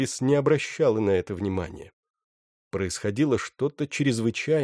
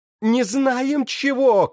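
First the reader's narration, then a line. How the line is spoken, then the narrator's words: Shouting back. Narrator (Russian): кричала ему в ответ любовница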